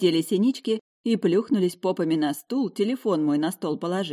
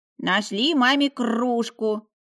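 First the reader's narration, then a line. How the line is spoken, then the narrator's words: Brisk growl. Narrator (Russian): прорычал деловито Лев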